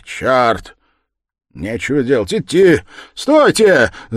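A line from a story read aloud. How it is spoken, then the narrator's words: Sudden shout. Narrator (Russian): закричал вдруг молодой человек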